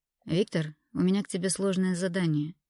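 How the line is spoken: Sighing head doctor. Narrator (Russian): вздохнул главврач

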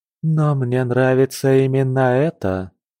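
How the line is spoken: Purr. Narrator (Russian): промурлыкала Цесами

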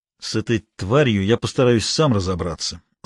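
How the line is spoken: Through gritted teeth. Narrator (Russian): сквозь зубы сказал Лагутин

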